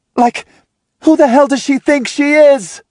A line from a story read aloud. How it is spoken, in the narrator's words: She shouts